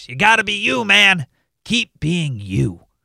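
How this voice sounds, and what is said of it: Imitates another person's voice. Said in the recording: “in my best Chappelle voice.”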